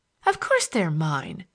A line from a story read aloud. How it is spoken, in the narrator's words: she said indignantly